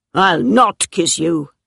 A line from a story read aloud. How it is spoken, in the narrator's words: he said roughly